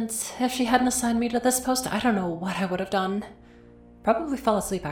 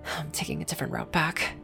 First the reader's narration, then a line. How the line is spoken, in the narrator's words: she muttered to herself